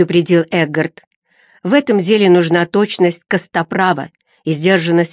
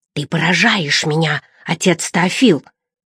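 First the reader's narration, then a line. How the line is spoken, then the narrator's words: Whisper. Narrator (Russian): прошептал Эггард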